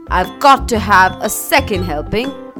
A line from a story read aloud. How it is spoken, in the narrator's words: yelping